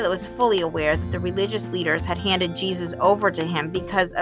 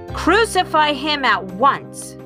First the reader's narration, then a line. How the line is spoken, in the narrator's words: they kept shouting out with a deafening roar